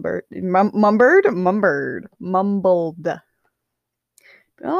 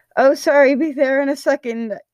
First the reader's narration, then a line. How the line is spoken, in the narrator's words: he yelled back